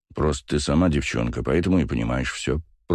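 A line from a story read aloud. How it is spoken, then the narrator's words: Grumbling. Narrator (Russian): проворчал Басов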